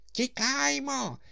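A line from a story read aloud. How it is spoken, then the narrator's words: Shout from the darkness. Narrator (Ukrainian): крикнув Паніковський звідкілясь із темряви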